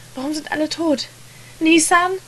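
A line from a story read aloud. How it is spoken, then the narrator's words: Kept calling out. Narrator (German): rief er weiter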